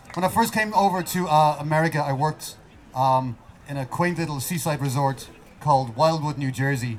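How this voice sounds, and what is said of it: Irish accent. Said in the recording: “I had this accent. I had nothing else going for me, but I had a nice accent.”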